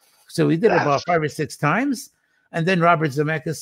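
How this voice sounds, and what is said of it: Usual voice. Nothing is said of it.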